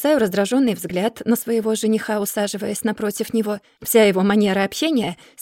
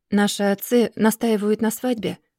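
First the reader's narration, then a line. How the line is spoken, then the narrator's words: Calm. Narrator (Russian): спокойно отвечает Арген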